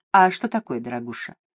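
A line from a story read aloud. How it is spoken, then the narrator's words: Asked sadly. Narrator (Russian): грустно спросил Дезре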